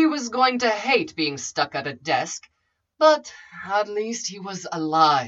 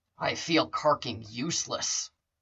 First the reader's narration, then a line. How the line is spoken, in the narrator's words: muttered